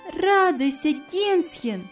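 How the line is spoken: Cheerful. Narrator (Russian): весело сказала она

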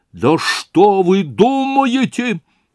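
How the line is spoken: Shouting, voice rising. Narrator (Russian): кричал Разумихин, еще более возвышая голос

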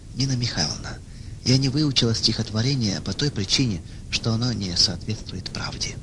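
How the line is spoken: Calm reply. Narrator (Russian): она спокойно ответила

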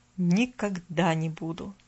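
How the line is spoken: Barely audible, very quiet. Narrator (Russian): Добавил он так тихо, что девочка едва расслышала

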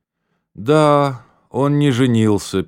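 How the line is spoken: Sad woman's voice. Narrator (Russian): печально сказала дама

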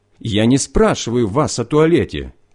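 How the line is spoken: Shout. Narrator (Russian): крикнул кагибист

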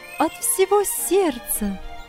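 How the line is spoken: Ringing joyful voice. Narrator (Russian): ответила она звонким, радостным голосом

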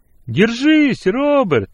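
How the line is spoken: Shouted reply. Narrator (Russian): крикнул в ответ Вилли

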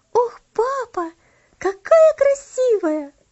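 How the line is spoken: Exclamation. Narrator (Russian): воскликнула она

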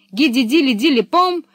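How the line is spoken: Exclaimed. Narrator (Russian): воскликнула Пеппи

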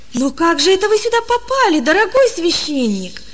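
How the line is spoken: Exclaiming. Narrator (Russian): воскликнул он

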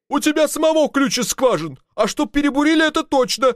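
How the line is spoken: Shouted. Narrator (Russian): кричал инженер

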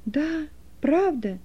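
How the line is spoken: Lively exclamation. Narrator (Russian): живо воскликнул Стефан

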